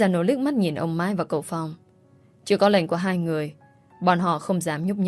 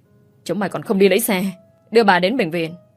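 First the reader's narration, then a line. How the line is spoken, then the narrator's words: Shouted order. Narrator (Vietnamese): Cậu Tấn quát đám giàn ô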